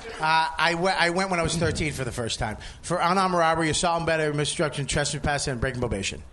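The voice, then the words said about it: Very fast, hard-to-follow speech. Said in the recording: “stop talking so fast? We didn't hear any of those words.”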